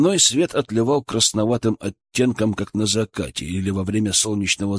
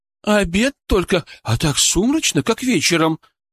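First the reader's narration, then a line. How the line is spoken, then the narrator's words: Agitated woman. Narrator (Russian): взволнованно произнесла женщина сзади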